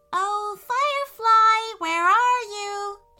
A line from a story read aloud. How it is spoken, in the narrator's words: she called out